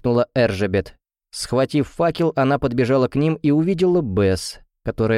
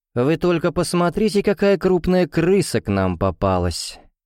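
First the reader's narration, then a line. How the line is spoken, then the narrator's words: Snide. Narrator (Russian): ехидно сказала Эржебет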